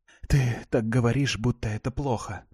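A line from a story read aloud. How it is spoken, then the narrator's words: Muttered through unclenched teeth. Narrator (Russian): пробормотала я, разжав, наконец, зубы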